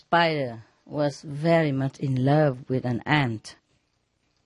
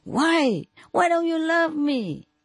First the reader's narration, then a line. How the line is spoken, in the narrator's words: the spider shouted